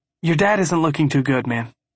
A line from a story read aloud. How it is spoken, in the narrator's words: he says, keeping his tone even